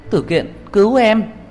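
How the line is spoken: Anguished high scream. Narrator (Vietnamese): tôi thê lương cất cao giọng hét lên

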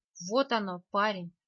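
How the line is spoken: Plain. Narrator (Russian): сказал ведьмак

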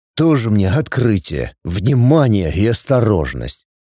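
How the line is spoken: Grumbled. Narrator (Russian): проворчал после Сап

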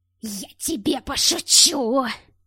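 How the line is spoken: Rasping wheeze. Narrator (Russian): хрипел Глушков

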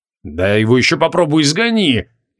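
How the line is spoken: Annoyed grumble. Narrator (Russian): досадливо пробурчал Креол

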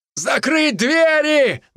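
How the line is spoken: Shout. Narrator (Russian): выкрикнул кто-то

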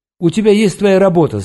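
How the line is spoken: Choked yelling. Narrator (Russian): заорал я, чувствуя, что у меня что-то сжимается в горле

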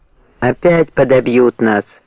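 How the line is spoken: Fearful grumbling. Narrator (Russian): ворчали матросы, боязливо

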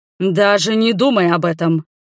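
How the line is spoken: Thunderous dragon growl. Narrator (Russian): зарычал дракон так, что стекла задрожали

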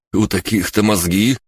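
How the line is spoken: Snorting. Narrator (Russian): хмыкнул Двен

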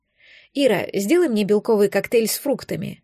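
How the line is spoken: Composed, calm request. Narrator (Russian): взяв себя в руки, спокойно попросила я

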